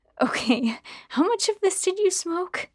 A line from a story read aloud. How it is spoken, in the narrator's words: I laughed again